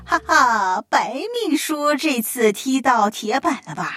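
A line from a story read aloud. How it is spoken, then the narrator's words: Snickering, gloating. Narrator (Chinese): 办公室所有的同事都在私底下偷笑，抱着看好戏的心态说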